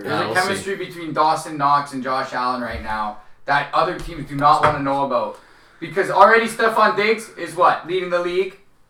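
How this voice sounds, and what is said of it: Buffalo sports-fan caller voice. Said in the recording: “doing a real good Buffalonian impression ... You sound like this you're someone calling in the WGR right now.”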